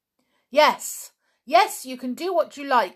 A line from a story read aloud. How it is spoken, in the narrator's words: suddenly yelled George